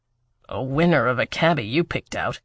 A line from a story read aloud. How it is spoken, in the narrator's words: he muttered to Theo